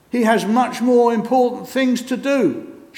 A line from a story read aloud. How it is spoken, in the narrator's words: shouted John